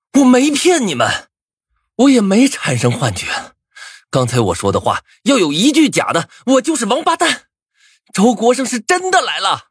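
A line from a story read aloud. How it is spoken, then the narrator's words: Furious angry roar. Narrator (Chinese): 暴躁无比的 红着眼吼道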